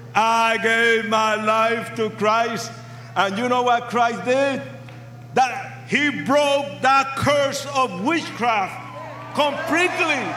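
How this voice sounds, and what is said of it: Speaks with a noticeable accent. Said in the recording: “can you tell that I have an accent? ... A sexy yeah. Accent.”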